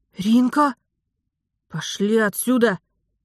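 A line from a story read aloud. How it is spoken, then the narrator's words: Barking. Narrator (Russian): рявкнула я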